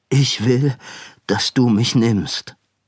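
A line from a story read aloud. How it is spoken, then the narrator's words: Plain. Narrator (German): sagte er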